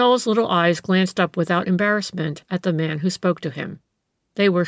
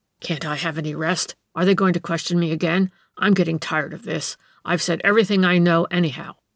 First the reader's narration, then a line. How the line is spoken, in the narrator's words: He shook off the clouds of slumber, grumbling